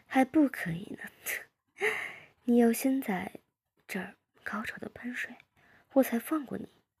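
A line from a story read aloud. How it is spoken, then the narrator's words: Laughing. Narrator (Chinese): 我笑着说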